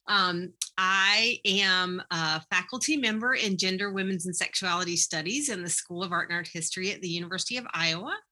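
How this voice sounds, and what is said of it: Eastern North Carolina Southern accent. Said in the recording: “I'm from Eastern North Carolina. I say that up front so that people are not so distracted by my accent.”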